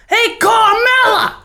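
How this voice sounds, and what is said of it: Italian-American housewife voice. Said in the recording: “No, I'm doing a 55-year-old Italian housewife ... That's my idea of an Italian in America.”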